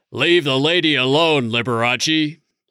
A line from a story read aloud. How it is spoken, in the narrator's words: from Chris a shouted